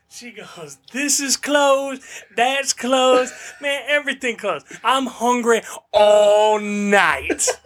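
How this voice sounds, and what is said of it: Imitated woman's southern drawl. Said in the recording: “African-American lady with, like, a southern draw a little bit, like a southern accent.”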